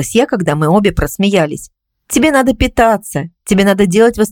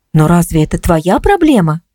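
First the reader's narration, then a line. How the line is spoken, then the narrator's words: Gentle reminder. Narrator (Russian): мягко напомнила я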